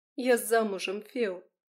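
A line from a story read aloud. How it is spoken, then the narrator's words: Ringing voice. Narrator (Russian): звенящим голосом проговорила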